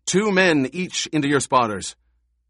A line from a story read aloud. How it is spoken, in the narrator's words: shouted